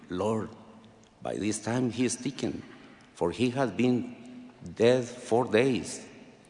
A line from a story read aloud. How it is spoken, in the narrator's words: Martha timidly whispered to him